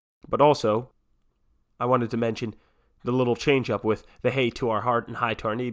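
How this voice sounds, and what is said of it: Stuffy, congested voice. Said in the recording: “apologize for my voice. I'm a bit off today. The allergies have kicked back in, I suppose. So, sorry for the stuffy sound”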